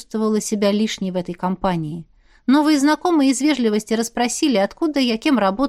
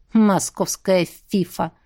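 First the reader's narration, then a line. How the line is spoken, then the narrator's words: Snorting. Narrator (Russian): хмыкнул Данила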